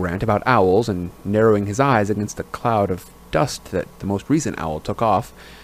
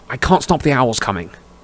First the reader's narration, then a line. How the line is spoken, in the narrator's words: Harry snapped